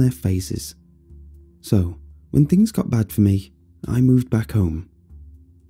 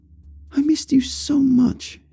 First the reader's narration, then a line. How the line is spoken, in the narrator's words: she exclaimed, not completely unlike the way she would talk to a baby